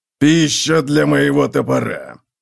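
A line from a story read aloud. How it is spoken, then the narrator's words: Explaining. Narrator (Russian): пояснил Готрек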